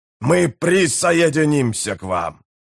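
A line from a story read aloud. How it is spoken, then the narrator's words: Hoarse, chieftain. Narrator (Russian): прохрипел вождь Хундрилов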